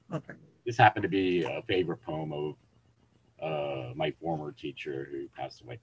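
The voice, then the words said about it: Hoarse voice. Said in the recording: “I'm kind of hoarse.”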